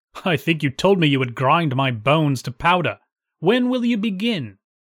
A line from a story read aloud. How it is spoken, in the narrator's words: Jack laughed and jeered at him, saying